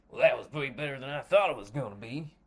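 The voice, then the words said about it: Put-on truck driver accent. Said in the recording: “in a what I could only describe as a truck driving accent”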